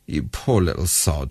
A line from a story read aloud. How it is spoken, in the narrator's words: he muttered in compassion